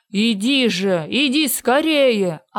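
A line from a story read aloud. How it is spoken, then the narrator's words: Yelling. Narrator (Russian): орал Синяя Борода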